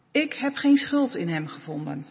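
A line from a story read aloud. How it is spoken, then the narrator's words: Plain. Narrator (Dutch): zei hij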